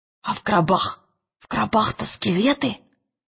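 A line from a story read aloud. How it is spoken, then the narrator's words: Whisper. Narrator (Russian): прошептал Роджер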